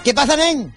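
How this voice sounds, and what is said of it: Imitated Catalan accent. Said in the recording (Spanish): “voy a imitar yo el catalán”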